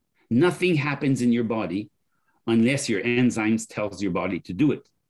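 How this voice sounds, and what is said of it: French accent. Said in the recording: “I'm talking with my accent. ... what the Frenchman did”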